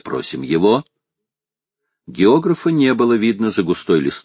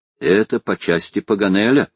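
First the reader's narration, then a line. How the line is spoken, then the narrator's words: Plain. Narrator (Russian): сказал Гленнерван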